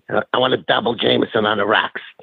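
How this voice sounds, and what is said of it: Imitated Boston accent. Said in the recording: “in that Boston accent”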